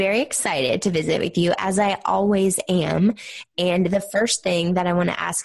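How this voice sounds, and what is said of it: Usual voice. Nothing is said of it.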